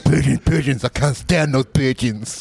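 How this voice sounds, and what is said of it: Imitates another person's voice. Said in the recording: “can you guys do your best Marlon Brando impression? ... It's like Stallone.”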